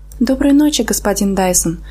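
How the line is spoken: Timid greeting. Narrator (Russian): Я поздоровалась робко

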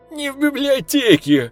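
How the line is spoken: Laughing. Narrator (Russian): Засмеялся Бобок

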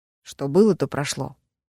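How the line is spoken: Grumbled. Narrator (Russian): буркнул Гран Уоллес

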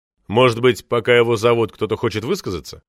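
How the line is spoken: Plain. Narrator (Russian): спросил Шуваев

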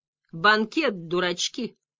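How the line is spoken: Gentle, affectionate. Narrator (Russian): ласково сказал

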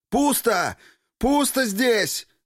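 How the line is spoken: Yelling down corridor. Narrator (Russian): Заорал в коридор Федор

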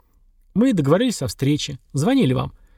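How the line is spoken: Dry. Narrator (Russian): сухо сказал Сергар

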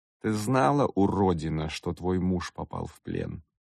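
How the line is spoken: Calm question. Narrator (Russian): Кавокин задал этот вопрос спокойно

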